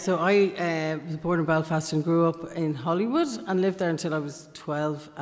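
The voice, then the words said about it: Southern Irish accent. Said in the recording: “My treacherous Southern accent ... your treacherous Southern accent”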